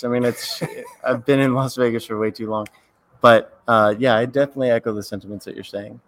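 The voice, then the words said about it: Hoarse, strained voice. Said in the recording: “You can tell by I'm already losing my voice.”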